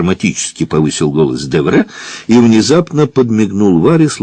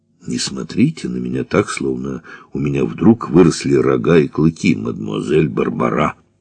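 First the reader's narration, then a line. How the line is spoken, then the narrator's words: Low, ordinary voice. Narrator (Russian): вполголоса произнес Девре своим обычным голосом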